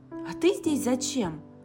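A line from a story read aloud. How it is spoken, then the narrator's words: Simultaneous exclamation. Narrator (Russian): Практически одновременно Шу воскликнула Кэти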